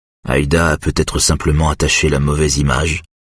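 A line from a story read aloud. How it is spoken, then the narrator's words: Plain. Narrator (French): dit Eric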